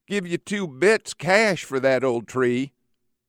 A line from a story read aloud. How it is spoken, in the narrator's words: the rich mill owner's lazy wife leans out and whines